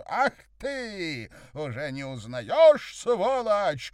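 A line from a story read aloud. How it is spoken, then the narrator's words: Angry scream. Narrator (Russian): заорала она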